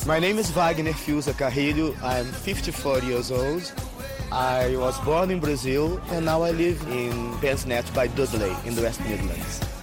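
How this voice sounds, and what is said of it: Brazilian accent in English. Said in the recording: “Oh, what a lovely accent. Where are you from? ... I am Brazilian.”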